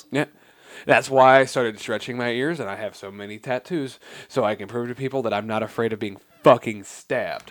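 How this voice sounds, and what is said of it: Deadpan, flat delivery. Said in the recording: “I love the fucking deadpan.”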